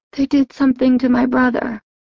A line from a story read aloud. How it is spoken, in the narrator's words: she said hoarsely